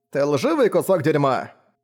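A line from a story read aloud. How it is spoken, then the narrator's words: Good-natured bark. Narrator (Russian): по-доброму рявкнул на него Энба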